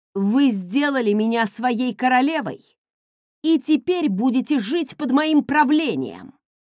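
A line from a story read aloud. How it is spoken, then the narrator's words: Growled. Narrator (Russian): прорычала я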